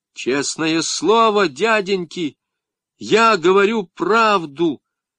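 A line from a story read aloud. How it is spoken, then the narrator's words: Shouting. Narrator (Russian): закричал я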